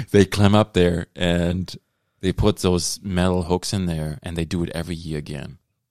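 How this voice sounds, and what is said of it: German accent. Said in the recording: “That's my German accent.”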